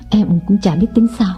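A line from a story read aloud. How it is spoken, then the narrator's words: Sighing. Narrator (Vietnamese): Nàng thở dài bảo Lộc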